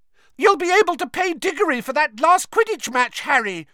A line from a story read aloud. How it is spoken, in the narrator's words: shrieked Katie Bell, another of the Gryffindor chasers